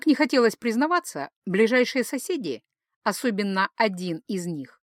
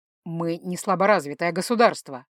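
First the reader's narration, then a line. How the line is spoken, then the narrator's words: Growl. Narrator (Russian): рыкнул Ингвар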